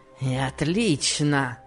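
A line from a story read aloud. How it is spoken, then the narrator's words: Grumbling with fierce smirk. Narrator (Russian): проворчал он, зверски усмехаясь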